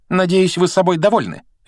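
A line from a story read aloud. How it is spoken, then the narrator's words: Sharp. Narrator (Russian): резко произнесла она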